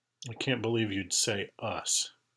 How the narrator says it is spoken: Kathy murmured

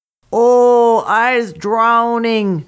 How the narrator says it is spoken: shouted Old Man Terrapin when his head bounced out of the water

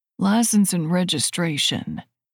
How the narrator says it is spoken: he says again

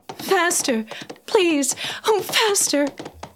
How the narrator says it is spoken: cried

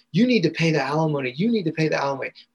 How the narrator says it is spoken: ran out of the house and was screaming at

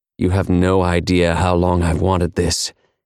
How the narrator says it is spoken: he said huskily

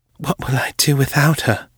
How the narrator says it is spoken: whispered

